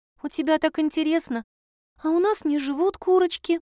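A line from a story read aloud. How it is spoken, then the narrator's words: Sighing child. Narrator (Russian): вздохнула девочка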